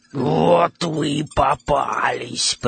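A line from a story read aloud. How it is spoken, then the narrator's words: Hoarse wheeze. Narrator (Russian): прохрипела она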